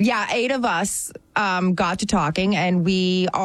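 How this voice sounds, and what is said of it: Usual voice. Nothing is said of it.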